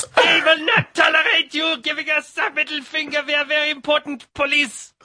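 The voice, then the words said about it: Bad German accent. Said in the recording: “a German accent? ... a very bad German accent”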